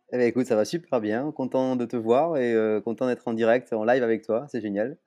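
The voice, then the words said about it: Slight sing-song regional French accent. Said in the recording (French): “ce petit accent chantant. Là, ça, a un petit goût de vacances.”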